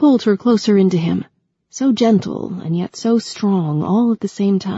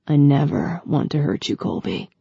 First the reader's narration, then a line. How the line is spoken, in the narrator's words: promised in that deep voice